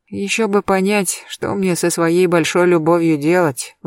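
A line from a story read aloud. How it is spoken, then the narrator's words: Sigh. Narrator (Russian): вздохнула я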